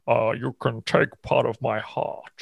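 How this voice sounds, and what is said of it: Shoddy Sean Connery impression. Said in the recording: “the best sounding dragon you've ever heard ... Sean Connery ... shoddy accent? ... Yeah, it's not the best. It's not one of my top impressions.”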